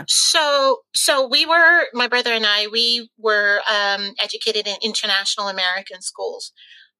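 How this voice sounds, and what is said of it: Softened American accent. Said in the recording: “my American accent, although it's kind of softened up a little bit for the last 20 years I've been in London”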